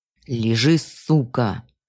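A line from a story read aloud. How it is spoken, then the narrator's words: Masked man snarling. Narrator (Russian): зарычал человек в маске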